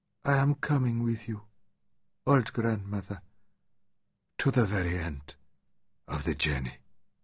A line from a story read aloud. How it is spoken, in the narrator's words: he cried softly